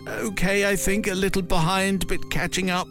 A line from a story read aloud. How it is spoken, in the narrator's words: I whimpered